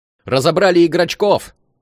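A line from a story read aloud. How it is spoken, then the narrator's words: Yelling. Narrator (Russian): орал Вова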